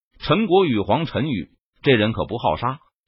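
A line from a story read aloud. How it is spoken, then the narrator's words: Cold reply. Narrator (Chinese): 公孙木冷声回答道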